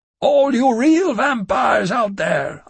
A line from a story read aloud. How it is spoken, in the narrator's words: I shouted